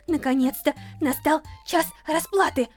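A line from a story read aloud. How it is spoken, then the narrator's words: Gloating mutter. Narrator (Russian): злорадно бормотала Стефани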